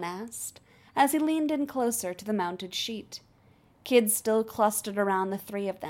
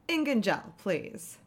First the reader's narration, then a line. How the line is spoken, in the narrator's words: Maya said with a little scoff